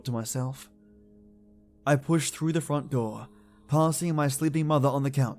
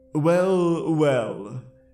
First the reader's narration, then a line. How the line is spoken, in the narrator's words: he slurred